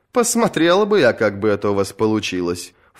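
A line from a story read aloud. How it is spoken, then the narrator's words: Snorted. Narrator (Russian): фыркнула Бриенна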